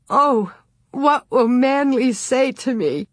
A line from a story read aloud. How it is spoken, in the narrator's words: Burying her face on her knees, she screamed and sobbed, saying over and over